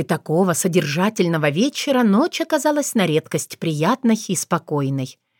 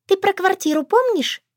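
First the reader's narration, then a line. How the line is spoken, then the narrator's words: Squeaked. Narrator (Russian): пискнула Шушанна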